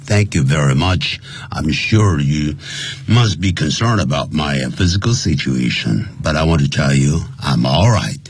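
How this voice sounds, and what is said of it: Strange, sick-sounding voice from cold. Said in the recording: “my voice is a little bit strange because I'm a little bit under the weather ... the bad cold”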